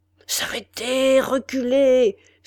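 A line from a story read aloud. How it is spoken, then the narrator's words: Exclaimed. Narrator (French): s'écria Norbit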